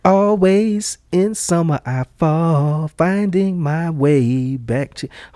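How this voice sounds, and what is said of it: Singing imitating a female singer. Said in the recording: “I'm trying to sing in her voice.”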